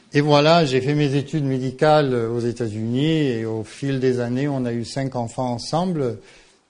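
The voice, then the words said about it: Slight Marseille-region French accent. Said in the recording (French): “j'ai passé presque tout le temps que j'ai passé en France, que je vivais, c'était dans la région marseillaise. Peut-être que vous entendez un petit peu l'accent. Je sais que c'est pas aussi joli que l'accent lyonnais”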